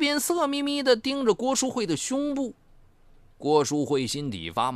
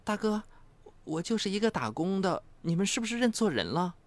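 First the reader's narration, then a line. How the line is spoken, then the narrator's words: Nervous mutter. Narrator (Chinese): 郭淑慧的心情很紧张，嘀咕着问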